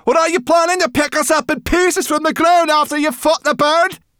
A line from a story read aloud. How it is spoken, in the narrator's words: the young rock screeched